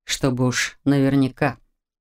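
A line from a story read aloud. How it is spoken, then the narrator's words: Gloomy explanation. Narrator (Russian): мрачно пояснил Маркус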